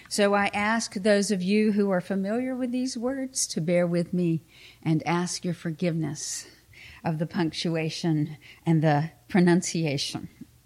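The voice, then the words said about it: Southern American accent. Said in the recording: “the country Southern girl accent”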